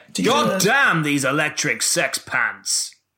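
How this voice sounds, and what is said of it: Matt Berry impression. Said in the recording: “my Matt Berry impression ... I went into the Matt Berry voice ... That's my Matt Berry.”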